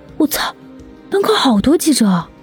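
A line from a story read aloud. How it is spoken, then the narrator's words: Startled cry. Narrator (Chinese): 张巧家大吃一惊，啊的一声叫了出来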